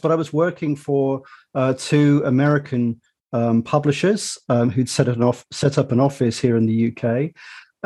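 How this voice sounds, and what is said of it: British accent. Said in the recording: “as your listeners might have deduced from my accent, I'm British”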